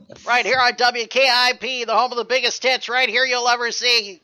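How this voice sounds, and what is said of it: Radio DJ announcer voice. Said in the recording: “You got like a pretty good DJ voice going there.”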